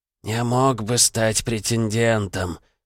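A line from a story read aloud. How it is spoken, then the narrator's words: Muttering to himself. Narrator (Russian): пробормотал он, разговаривая сам с собой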